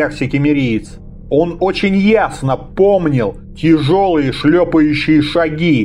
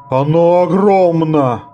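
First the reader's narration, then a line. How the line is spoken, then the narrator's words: Groan. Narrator (Russian): простонал Фарад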